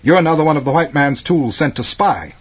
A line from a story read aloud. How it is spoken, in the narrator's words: accused sharply